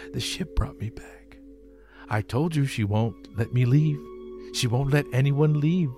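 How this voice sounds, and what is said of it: Imitates another person's voice. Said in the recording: “I'll try my Sam Neill. ... Try my Sam Neill impression ... So it says here laughing.”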